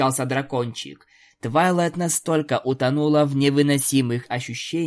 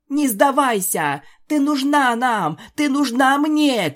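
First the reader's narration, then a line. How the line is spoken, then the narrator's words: Shouting. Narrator (Russian): кричала Рейнбоу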